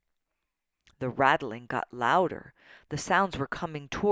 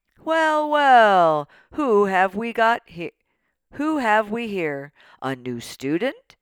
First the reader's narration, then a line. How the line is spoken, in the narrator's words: a voice boomed